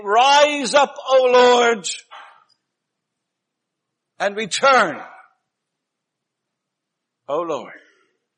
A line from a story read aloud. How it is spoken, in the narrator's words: Moses thus made a habit of shouting